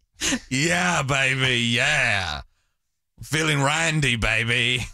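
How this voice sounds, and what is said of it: Austin Powers character impression. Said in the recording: “You do so few impersonations. ... It's actually really good. ... It's getting worse.”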